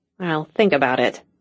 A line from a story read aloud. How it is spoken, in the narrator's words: Cassie muttered